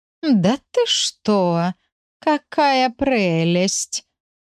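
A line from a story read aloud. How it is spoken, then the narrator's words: Hissed through teeth, combative. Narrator (Russian): процедила мигом пришедшая в состояние полной боевой готовности Матильда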